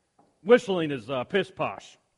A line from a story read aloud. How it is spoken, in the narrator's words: said the wood carver gruffly